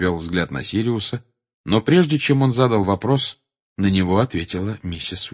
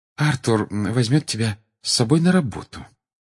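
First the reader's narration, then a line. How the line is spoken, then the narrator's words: Soft, gentle. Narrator (Russian): мягко ответила она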